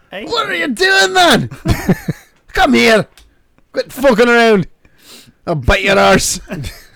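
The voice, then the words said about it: Dracula in Irish or Scottish accent. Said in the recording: “Dracula with an Irish or Scottish accent would be great.”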